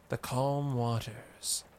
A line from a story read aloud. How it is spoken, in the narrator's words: purred Maiko